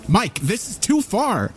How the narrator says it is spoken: Andy shouted at him

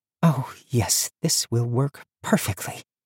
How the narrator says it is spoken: Tandry purred

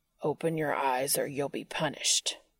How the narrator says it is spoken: Cass growled

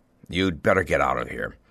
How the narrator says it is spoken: said harshly

